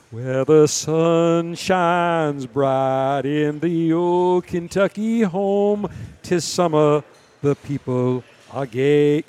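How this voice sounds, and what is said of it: Sung in Southern genteel accent. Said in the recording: “You got to do it in a Southern genteel accent.”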